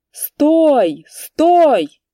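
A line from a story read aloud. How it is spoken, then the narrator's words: Shouting. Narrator (Russian): закричал он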